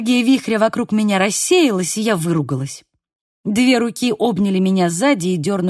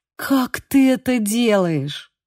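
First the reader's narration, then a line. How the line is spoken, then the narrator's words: Forced out. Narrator (Russian): Выдавила я из себя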